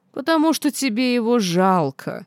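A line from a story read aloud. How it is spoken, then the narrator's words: Mocking reply. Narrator (Russian): насмешливо ответил Динар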